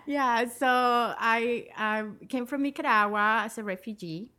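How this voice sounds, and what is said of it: Nicaraguan accent in English. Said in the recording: “as you might hear there, ... has an accent... I never lost the accent... It's an accent.”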